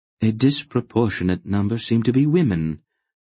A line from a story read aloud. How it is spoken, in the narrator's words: Aunt Paul observed calmly to Mr